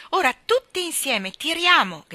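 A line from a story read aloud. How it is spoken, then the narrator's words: Shouting. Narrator (Italian): gridò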